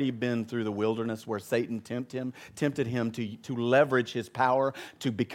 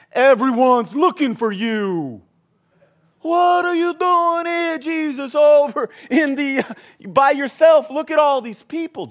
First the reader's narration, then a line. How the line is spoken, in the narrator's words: exclaimed